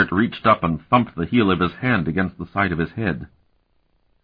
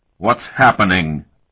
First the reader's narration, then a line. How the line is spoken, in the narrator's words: bellowed, exaggeratedly mouthing the words